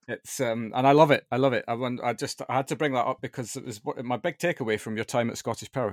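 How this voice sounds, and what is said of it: Scottish accent. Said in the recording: “you can probably detect from my accent that I'm also from that part of the world”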